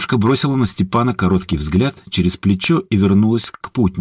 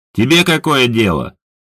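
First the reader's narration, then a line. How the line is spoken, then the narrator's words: Snort. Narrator (Russian): хмыкнул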